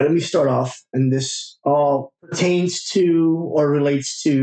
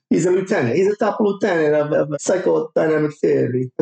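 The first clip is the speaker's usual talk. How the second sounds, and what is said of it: Dracula-like Count from Sesame Street voice. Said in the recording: “I'm talking like a Dracula. ... I was thinking you sounded like Dracula. You sound like Dracula. ... I'm like the Count from Sesame Street.”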